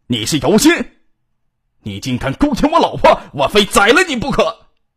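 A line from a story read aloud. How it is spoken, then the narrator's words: Loud angry man. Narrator (Chinese): 一个男人愤怒的声音撞击着耳膜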